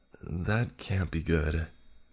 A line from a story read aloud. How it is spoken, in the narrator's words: he said, his voice showing fear now